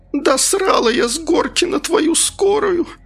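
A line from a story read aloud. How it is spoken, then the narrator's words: Furious, deafening shriek. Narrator (Russian): Разгневалась вдруг женщина ... завизжала так, что уши заложила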